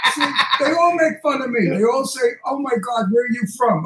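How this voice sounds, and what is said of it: Brooklyn accent. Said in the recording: “Brooklyn accent ... You speak like Brooklyn ... your accent is very slight now ... I have a very heavy Brooklyn accent”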